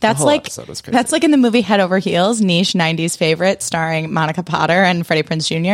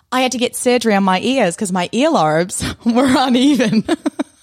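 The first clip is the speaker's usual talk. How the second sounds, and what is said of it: Put-on Australian accent. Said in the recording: “That was a good accent. That was Australian, right?”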